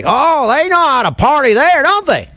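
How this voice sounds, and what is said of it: Tennessee Southern accent. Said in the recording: “your Tennessee accent was pretty good.”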